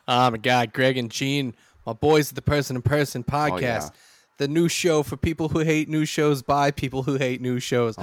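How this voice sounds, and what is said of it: Put-on accent. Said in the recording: “I don't know why this is the accent I'm going with.”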